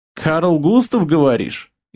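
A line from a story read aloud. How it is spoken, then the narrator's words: Snide goblin smirk. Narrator (Russian): ехидно усмехнулся гоблин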